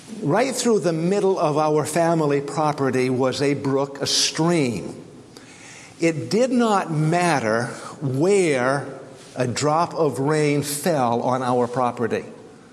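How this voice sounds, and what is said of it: Maine accent. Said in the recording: “As you may know from my accent already, I grew up in Maine”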